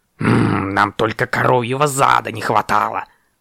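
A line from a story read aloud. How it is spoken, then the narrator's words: Grumbling raven. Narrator (Russian): пробурчал ворон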